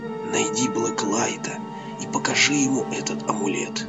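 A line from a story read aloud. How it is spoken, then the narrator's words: Whisper. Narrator (Russian): Он перешел на шепот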